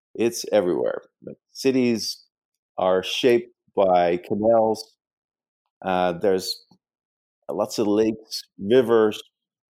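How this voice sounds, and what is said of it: Dutch accent. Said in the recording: “as you can probably tell from my accent, I'm not from uh, the United States. I actually grew up in the Netherlands.”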